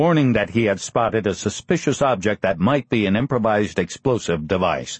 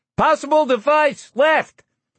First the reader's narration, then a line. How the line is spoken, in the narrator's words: The 50 gunner yelled